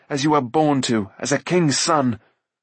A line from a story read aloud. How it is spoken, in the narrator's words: Taran flung back angrily